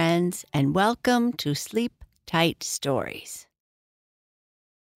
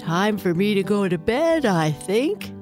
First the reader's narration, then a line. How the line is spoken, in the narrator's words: yawned her papa